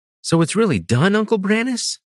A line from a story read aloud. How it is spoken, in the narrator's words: Danilasis asked eagerly